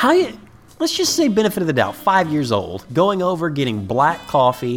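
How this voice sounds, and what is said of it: Usual voice. Nothing is said of it.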